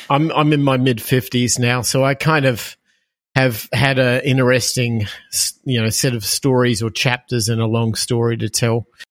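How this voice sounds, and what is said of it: Australian accent. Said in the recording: “As people will hear from my accent, I am from Australia originally.”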